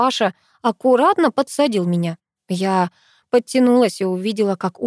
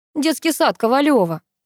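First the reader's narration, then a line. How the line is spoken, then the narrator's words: Indignant huffing. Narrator (Russian): Он так возмущенно пыхтел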